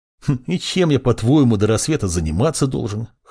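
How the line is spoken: Young man's wry snort. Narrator (Russian): хмыкнул юноша

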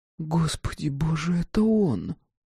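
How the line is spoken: Gasp then whisper. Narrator (Russian): Давид охнула и прошептала

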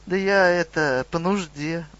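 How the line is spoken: Mumbled. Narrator (Russian): промямлил гоблин

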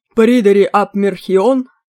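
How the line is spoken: Thunderous voice. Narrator (Russian): громовым голосом сказал Мерлин

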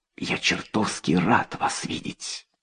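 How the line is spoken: Relieved whisper. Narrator (Russian): он с облегчением прошептал

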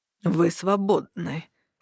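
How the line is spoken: Through gritted teeth. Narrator (Russian): процедил мужчина сквозь зубы

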